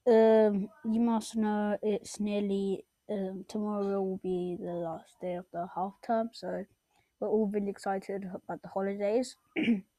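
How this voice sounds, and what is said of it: Sore, strained voice. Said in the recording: “my voice is a bit sore. I've been speaking so much in school ... I might cough a little bit here and then”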